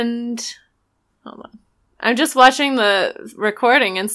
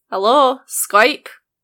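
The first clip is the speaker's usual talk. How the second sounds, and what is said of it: Bad put-on Scottish accent. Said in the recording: “What about Scottish? ... Oh, this is a terrible accent. Wow, truly awful.”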